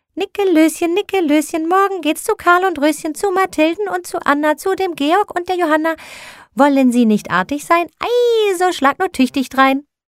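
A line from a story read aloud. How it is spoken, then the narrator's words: Calling out. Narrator (German): rief Christkindchen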